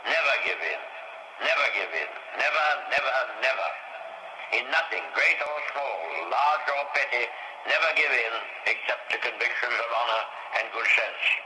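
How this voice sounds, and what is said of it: Old-fashioned English accent, hard to understand. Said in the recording (Dutch): “Even I struggle to understand that accent... That's how English people used to speak”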